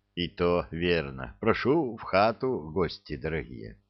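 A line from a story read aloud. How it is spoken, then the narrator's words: Elder sighing, muttering. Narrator (Russian): Староста вздохнул и пробормотал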